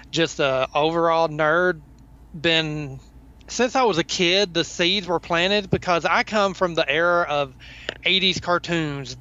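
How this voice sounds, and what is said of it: Southern US accent. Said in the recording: “I am a Southern boy, as you can tell from the accent. I can't hide that.”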